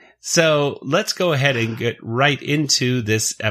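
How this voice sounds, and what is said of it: Usual voice. Nothing is said of it.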